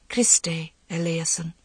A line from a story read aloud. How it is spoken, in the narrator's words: she heard her voice clear and soft, singing